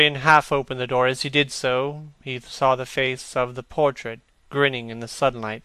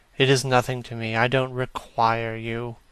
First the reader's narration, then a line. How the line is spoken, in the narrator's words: said Campbell coldly